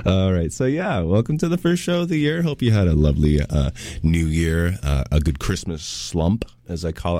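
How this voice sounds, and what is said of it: Worn, tired-sounding radio voice. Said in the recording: “As you can tell by my voice, it's been some long nights, but that makes for a good radio voice”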